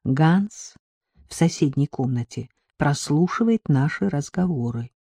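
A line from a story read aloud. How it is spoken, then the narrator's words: Relieved sigh. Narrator (Russian): Драган облегченно вздохнул и сказал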